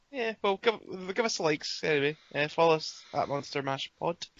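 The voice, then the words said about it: Hoarse, croaky throat. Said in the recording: “I'm quite sick this week ... I've got a bit of a frog in my throat.”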